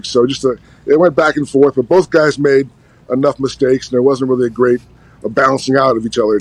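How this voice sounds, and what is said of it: Noticeable regional accent. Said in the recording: “I'm not sure where this accent came from. Maybe the mailman”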